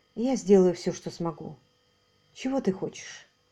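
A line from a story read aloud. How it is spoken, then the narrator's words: Soft. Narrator (Russian): мягко сказала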